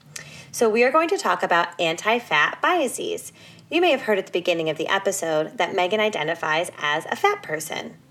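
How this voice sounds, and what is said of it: Slightly altered voice, tail end of cold. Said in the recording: “I'm at the tail end of a cold, so my voice is just a little bit different today”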